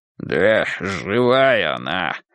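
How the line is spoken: Hoarse grey-haired man. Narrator (Russian): хрипло сказал седовласый

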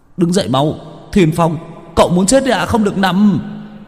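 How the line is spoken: Shout. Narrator (Vietnamese): Chiến biết la lên

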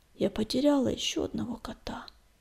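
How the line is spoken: Dejected whisper. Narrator (Russian): упавшим голосом прошептала она

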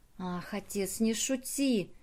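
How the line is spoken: Heartfelt voice from deep chest. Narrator (Russian): сказала Друзила проникновенным голосом, исходившим из глубины ее описанной выше груди

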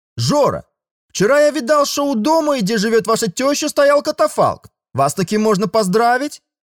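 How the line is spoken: Sudden yell. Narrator (Russian): Совершенно неожиданно заорал Гольдман

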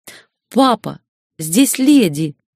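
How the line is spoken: Reproachful exclamation. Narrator (Russian): Укоризненно воскликнула Светара

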